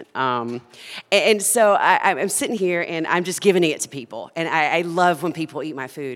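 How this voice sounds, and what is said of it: Southern US accent. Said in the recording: “I'm Southern, if you can't tell by the accent.”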